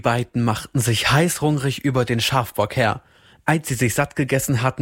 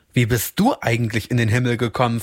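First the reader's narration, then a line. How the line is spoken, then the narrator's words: Plain. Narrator (German): fragte er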